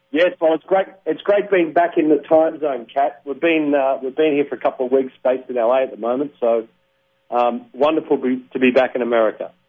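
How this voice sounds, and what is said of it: Distinctive regional accent. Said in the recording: “Oh, keep talking. I got to love that accent.”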